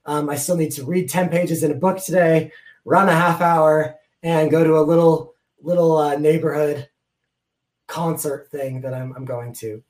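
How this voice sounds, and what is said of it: Strained voice, losing his voice. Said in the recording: “I'm losing my voice.”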